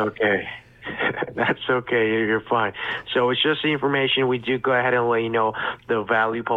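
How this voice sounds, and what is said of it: Usual voice. Nothing is said of it.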